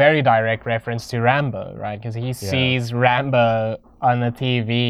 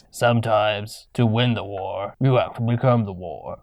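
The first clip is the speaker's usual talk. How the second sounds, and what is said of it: Poor imitation of another person's voice. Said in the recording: “That's not a very good Sylvester Stallone impersonation.”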